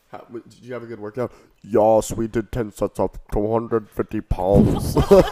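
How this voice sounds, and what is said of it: Arnold Schwarzenegger impression. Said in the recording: “doing an Arnold impression”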